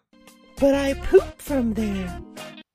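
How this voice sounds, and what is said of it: Girlish put-on voice. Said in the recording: “in a girlish voice.”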